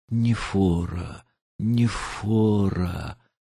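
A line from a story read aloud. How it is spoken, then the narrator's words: Faint despairing moan. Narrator (Russian): Сердце упало, и он едва простонал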